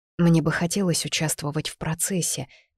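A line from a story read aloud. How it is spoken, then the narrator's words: Soft, smiling. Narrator (Russian): мягко проговорила, невольно улыбнувшись его заботе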